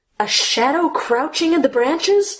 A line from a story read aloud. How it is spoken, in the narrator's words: Alice screamed